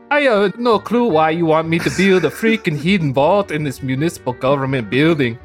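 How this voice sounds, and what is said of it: Put-on Swedish accent. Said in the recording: “Could you read it all again with a Swedish accent?”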